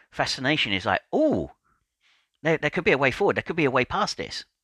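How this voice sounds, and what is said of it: Excited, energized tone of voice. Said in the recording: “hear it in my tone of voice, I'm starting to get excited now”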